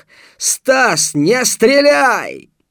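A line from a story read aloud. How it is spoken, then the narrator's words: Shouted at full volume. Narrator (Russian): Крикнул во всю мощь легких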